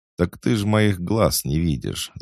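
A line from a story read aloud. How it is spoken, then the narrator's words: Laughing. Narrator (Russian): засмеялся Хаджар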